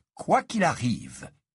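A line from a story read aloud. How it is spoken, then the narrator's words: Grave tone. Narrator (French): répéta Dumbledore d'un ton grave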